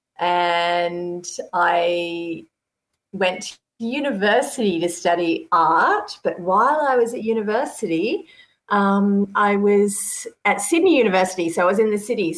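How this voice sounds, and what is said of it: Australian accent. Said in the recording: “I'm Australian. You can't already tell in my accent.”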